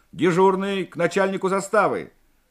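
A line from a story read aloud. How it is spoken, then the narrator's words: Shouting. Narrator (Russian): Морев крикнул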